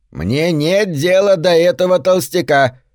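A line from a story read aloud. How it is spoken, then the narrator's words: Grandmother speaking loudly. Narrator (Russian): сказала бабушка достаточно громко, так, чтобы было слышно на крыше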